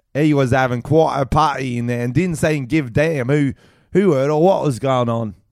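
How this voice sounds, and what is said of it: Put-on old man London English accent. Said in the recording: “I'll do old man English ... London”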